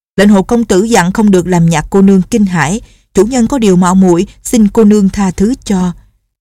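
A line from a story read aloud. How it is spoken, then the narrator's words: Loud sedan bearer. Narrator (Vietnamese): Tên kiệu phu lớn tiếng nói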